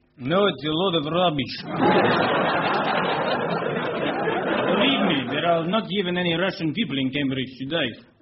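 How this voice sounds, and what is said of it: Russian accent. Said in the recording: “by the sound of it, you yourself are Russian ... What can only be described as Russian accent”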